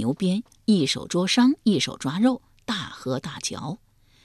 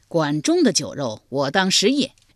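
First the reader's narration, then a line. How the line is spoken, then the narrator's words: Herdsman's hearty laugh. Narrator (Chinese): 牧牛人仰天大笑道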